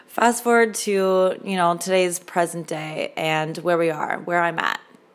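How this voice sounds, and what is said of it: Hoarse, fading voice. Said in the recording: “I'm slowly losing my voice here”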